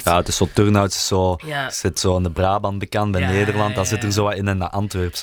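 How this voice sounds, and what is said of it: Thick Kempen Flemish dialect. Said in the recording (Dutch): “jullie hebben echt een dikke Kempisch accent. Allee, dialect.”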